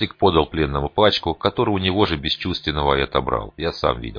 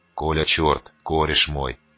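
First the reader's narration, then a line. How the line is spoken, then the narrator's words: Hiss. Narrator (Russian): прошипел наш магиканин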